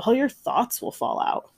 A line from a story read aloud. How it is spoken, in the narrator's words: Otis laughed